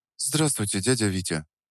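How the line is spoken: Quiet answer. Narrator (Russian): Тихо ответила Настя

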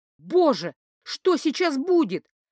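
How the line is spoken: Terrified teenage girl screaming. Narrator (Russian): вопила перепуганная девчонка-подросток внутри меня

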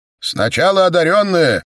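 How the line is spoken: Shouting. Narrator (Russian): крикнул один из храмовников

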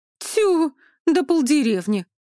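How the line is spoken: Exclaimed. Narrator (Russian): воскликнула Олюшка

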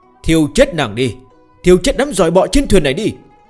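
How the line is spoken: Loud shout. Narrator (Vietnamese): Nguyên thần của Dực La Thiên Vương thấy thế thì lớn tiếng la lên

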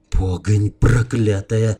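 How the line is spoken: Cursing through clenched teeth. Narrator (Russian): сквозь зубы выругался Илья Муромец

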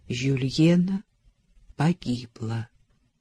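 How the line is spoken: Gentle repetition. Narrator (Russian): мягко повторил офицер

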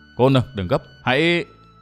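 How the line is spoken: Hurried, lowered voice. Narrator (Vietnamese): Thần Hồ vội hạ giọng nói

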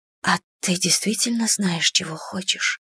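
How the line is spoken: Whispered question. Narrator (Russian): спросила я шепотом

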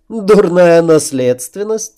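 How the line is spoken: Laughing. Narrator (Russian): рассмеялась императрица

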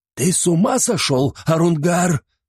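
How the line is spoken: Old man exclaiming. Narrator (Russian): воскликнул старик

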